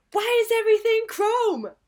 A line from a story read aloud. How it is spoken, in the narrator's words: yell at her down the street